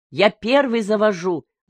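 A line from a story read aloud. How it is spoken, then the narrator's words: Shouting son. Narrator (Russian): закричал старший сын Мигди, Коно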